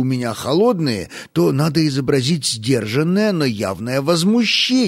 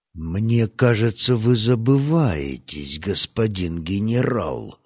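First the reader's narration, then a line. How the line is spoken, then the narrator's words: Pointedly quiet. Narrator (Russian): сказал Стас подчеркнуто тихо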